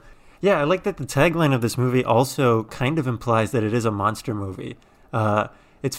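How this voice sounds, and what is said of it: Usual voice. Nothing is said of it.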